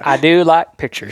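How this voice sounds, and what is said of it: Put-on Southern accent. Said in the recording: “I used a southern accent to convey stupidity.”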